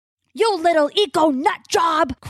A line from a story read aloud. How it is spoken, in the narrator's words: Crow yells